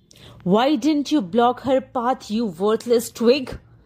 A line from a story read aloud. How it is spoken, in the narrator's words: howled